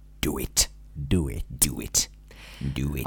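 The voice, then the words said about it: Low-pitched Emperor Palpatine impression. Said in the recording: “in the voice of Emperor Palpatine ... do an impression ... It's quite it's a bit low.”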